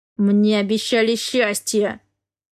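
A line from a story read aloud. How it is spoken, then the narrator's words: Growled through teeth. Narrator (Russian): сквозь зубы прорычал Дерек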